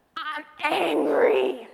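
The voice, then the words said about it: Gruff Hulk-style monster voice. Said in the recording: “my best Hulk impression”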